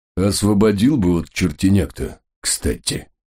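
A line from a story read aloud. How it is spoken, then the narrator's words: Gruff mutter. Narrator (Russian): Не оборачиваясь, буркнул отец Пафнутий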